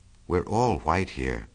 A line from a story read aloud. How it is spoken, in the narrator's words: murmured Jordan